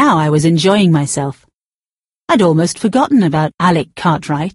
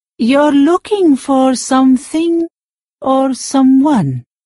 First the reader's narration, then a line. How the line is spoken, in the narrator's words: said slowly